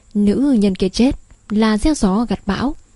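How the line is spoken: Cold restrained voice. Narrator (Vietnamese): Thánh Tôn cứng rắn nén lại hai chữ sỉ nhục, lạnh lùng nói

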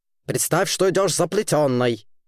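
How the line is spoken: Stern rebuke. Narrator (Russian): строго осадил девочку Херра Мюрсеп

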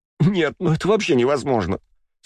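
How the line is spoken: Speaking through laughter. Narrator (Russian): сквозь смех проговорила она

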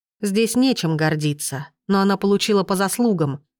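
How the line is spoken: Plain, dragon. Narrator (Russian): сказал дракон

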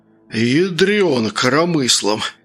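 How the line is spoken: Hoarse croak. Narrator (Russian): прохрипел Сергей

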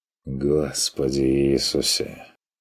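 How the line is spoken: Sigh. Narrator (Russian): вздохнул Стрик

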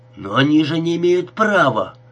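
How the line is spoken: Frantic shout. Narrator (Russian): как сумасшедший закричал Бенни

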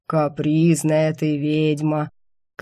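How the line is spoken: Extremely long-suffering tone. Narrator (Russian): крайне страдальческим тоном заявил демонюга

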